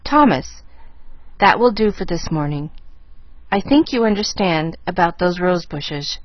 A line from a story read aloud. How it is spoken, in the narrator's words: she said stiffly